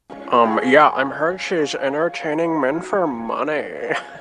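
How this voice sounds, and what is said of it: Imitates another person's voice. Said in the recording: “a really good impression”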